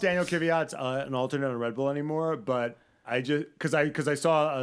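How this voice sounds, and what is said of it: Usual voice. Nothing is said of it.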